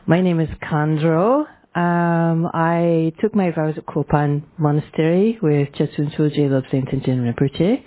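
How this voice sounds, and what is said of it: Mild Scottish accent. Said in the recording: “I have a bit of a Scottish accent. Not too bad, though.”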